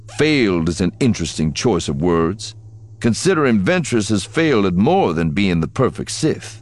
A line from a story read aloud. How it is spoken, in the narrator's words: snapped